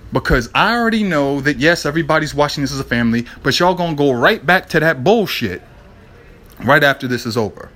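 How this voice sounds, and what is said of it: Frustrated, exasperated voice. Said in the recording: “hear the frustration in my voice.”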